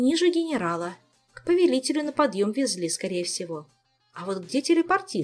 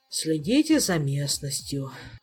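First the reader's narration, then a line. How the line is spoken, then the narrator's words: Sighing. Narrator (Russian): вздохнул мэтр Хирон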